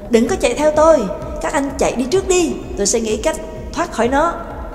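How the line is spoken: Sharp snapping. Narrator (Vietnamese): Trắc Mộc Cường Ba gắt lên

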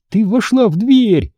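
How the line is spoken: Exclamation. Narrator (Russian): воскликнула Одри

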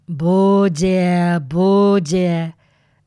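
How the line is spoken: Nasal voice. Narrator (Russian): Выходила у него гнусава на

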